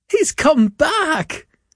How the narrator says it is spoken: cried Mrs

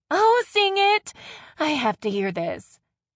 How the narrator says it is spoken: Ryan said with a laugh

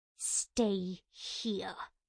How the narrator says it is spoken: she snarled

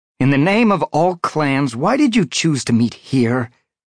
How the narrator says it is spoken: demanded, irritably

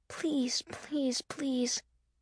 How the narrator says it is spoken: Miss Russell whispered

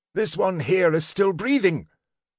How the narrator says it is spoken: Snifton cried out

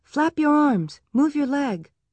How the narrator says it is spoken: Laura shouted

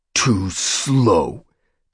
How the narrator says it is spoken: the brown warrior growled

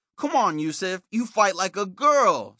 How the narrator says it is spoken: shouted

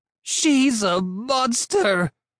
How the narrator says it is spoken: Miss Gulch screeched

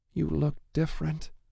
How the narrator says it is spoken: she whispered, words choked and tight

